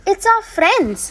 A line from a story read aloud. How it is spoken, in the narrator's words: cried Epimetheus happily